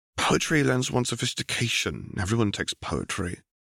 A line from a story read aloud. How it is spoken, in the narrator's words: Obi-Wan mutters